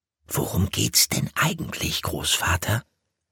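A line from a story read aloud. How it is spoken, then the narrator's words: Whispered. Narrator (German): flüsterte Willi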